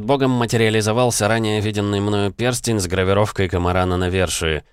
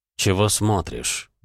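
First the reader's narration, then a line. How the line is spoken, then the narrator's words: Grumbling. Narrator (Russian): проворчал бог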